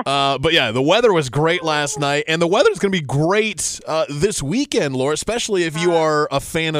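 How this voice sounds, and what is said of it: Usual voice. Nothing is said of it.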